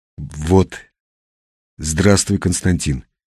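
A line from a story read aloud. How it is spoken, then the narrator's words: Forced out. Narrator (Russian): выдавил он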